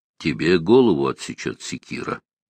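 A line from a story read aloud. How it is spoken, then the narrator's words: Quiet. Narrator (Russian): тихо проговорил волхв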